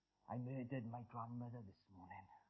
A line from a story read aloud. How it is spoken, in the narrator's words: he murmured